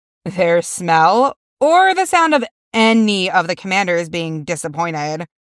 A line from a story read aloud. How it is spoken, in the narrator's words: Corey informs her with a laugh